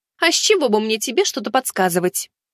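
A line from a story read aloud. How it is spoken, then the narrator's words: Snorting, indignant. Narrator (Russian): Тиана фыркнула и возмущенно добавила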